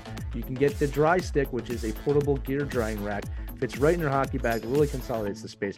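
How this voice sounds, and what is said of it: Smooth radio announcer voice. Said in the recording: “I'm doing my best smooth radio voice while I'm doing this ad”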